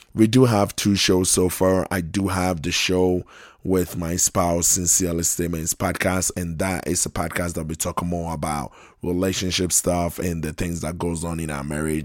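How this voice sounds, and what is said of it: Hoarse, fading voice. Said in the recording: “apologize for my voice. I'm losing my voice”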